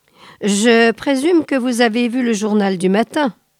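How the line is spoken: Plain. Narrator (French): dit-il

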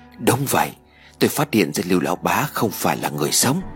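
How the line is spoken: Quiet voice. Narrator (Vietnamese): Lê Minh ... nhỏ giọng nói

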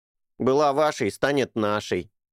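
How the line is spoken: Smirking snort. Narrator (Russian): хмыкнул Эрни

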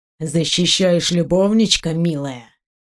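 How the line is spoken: Gloating hiss. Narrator (Russian): Со злорадством прошипел он

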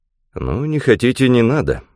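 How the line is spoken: Cold. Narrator (Russian): холодно сказал он

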